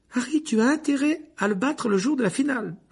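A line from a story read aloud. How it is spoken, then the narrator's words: Shrill call. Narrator (French): lança Hermione d'une voix perçante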